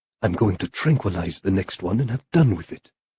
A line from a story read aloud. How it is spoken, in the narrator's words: he muttered